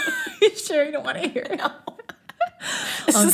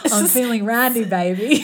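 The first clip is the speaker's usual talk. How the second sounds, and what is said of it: Bad Austin Powers character impression. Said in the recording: “doing a bad Austin Powers impression.”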